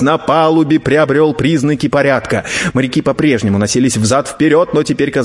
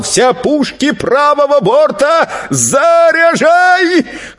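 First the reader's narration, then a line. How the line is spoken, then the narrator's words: Deep breath, loud shout. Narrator (Russian): Тот набрал в грудь побольше воздуха и закричал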